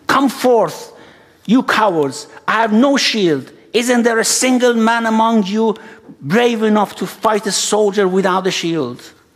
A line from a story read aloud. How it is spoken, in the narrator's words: Abbas shouting